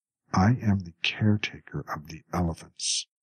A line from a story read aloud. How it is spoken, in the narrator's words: Samsa said in a controlled voice